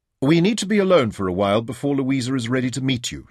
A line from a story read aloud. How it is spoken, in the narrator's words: she told him firmly